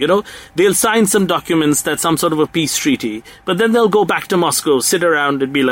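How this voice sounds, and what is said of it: Usual voice. Nothing is said of it.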